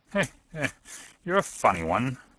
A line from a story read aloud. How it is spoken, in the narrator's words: chuckled the inspector